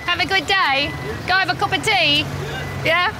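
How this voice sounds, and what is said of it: Terrible put-on accent. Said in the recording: “I don't think I'll be bringing that accent home to Australia. It's terrible.”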